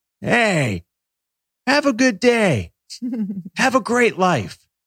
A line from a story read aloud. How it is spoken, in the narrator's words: this old man, an hour into this walk, yells